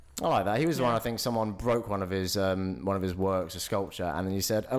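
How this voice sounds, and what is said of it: Usual voice. Nothing is said of it.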